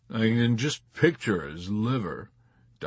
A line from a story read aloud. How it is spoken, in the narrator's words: Doc Danica grumbled